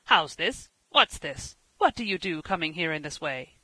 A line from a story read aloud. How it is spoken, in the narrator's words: The squire himself had risen and asked angrily